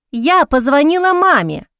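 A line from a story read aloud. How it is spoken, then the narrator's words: Loud announcement. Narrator (Russian): Громко объявляет она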